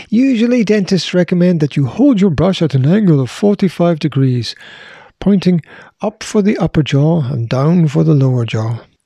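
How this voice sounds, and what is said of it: Put-on dentist-style accent. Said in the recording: “Did you like that accent? That was my dentist accent.”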